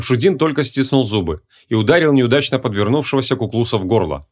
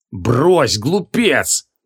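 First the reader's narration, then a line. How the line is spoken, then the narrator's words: Growled. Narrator (Russian): прорычал креол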